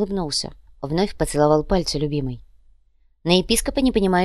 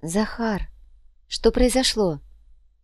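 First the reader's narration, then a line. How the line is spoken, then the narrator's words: Soft smiling tone. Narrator (Russian): мягко улыбнулся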